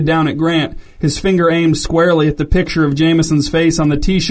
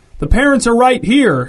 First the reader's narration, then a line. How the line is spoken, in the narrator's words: shouted the single father